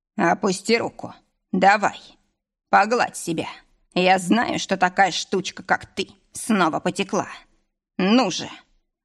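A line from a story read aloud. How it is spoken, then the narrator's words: Rough growl. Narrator (Russian): рыкнул он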